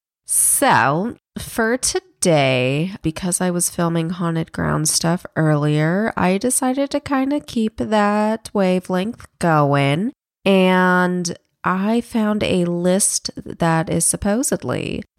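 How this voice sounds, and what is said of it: Rough, hoarse voice. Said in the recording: “apologize for my voice. I have a really bad sore throat... I normally don't sound like a bag of trash”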